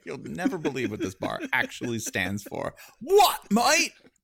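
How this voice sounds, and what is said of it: Terrible fake British accent. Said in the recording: “my extremely terrible... That's actually not an English accent. It's the accent of a person who is so hard for their team, their EPL team, that they become really bad fake British”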